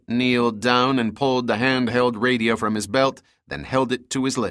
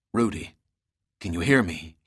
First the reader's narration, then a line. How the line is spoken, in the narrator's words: said quietly